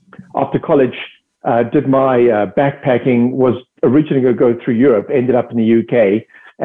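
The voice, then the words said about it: South African accent. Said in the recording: “I'm originally from South Africa. That's the accent.”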